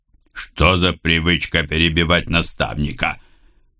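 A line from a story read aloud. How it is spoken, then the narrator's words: Raven's harsh bark. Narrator (Russian): рявкнул ворон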